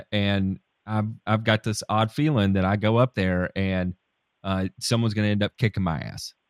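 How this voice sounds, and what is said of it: Funny-sounding regional accent. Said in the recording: “I talk funny. I've got a real goofy ass accent”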